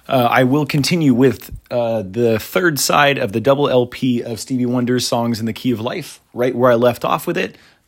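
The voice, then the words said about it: Hoarse, partly lost voice. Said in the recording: “my voice is coming back. It's still a little gone”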